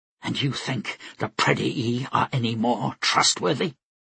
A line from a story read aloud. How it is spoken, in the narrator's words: Flora spat before she could stop herself